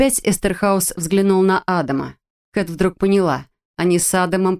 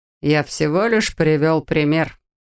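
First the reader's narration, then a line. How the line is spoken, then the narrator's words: Calm. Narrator (Russian): спокойно заметил Сайкс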